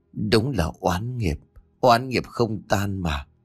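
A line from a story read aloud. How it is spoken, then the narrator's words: Old woman sighing. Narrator (Vietnamese): Bà thở dài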